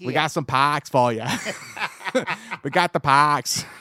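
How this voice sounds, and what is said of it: Poor put-on Boston accent. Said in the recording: “that's a terrible Boston accent. Um, probably not even close.”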